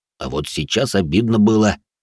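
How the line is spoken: Grumbled. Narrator (Russian): буркнул Рэй

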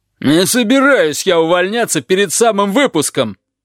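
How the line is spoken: Roar. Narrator (Russian): взревел шериф

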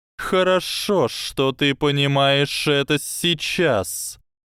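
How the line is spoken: Cold hiss. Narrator (Russian): холодно прошипела змея

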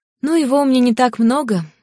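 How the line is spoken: Disappointed sigh. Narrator (Russian): огорченно вздохнула Ли

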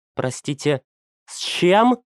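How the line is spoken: Breathless, trembling voice. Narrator (Russian): выдохнула Валентина, и ее голос предательски дрогнул

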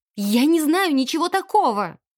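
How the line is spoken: Desperate exclamation. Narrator (Russian): воскликнула в отчаянии

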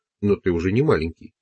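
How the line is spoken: Plain. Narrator (Russian): сказал он

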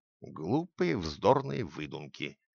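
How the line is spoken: Displeased mutter. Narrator (Russian): крестный, к ее удивлению, сделал недовольное лицо и пробормотал

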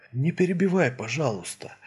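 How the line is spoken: Calm tone. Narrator (Russian): сказал уже спокойным тоном

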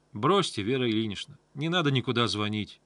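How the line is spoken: More confident tone. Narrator (Russian): сказала Таня уже более уверенным тоном

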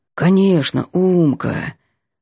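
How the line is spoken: Sleepy. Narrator (Russian): сонно обещает Ванька

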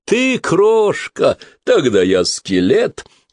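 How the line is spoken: Roaring, shaking laughter. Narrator (Russian): Босс расхохотался, от смеха глазки его сощурились, а все тело затряслось

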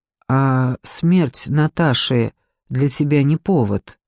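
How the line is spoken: Quiet question. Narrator (Russian): спросил Зиганшин тихо

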